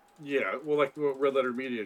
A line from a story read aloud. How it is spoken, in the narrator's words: she cries